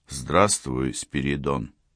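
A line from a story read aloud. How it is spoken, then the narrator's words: Quiet call. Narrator (Russian): окликнули негромко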